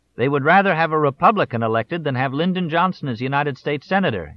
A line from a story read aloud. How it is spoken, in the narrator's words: shouted